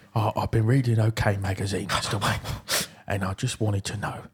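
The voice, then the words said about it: Michael Caine impression. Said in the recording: “How did you do his voice again? ... not married to Michael”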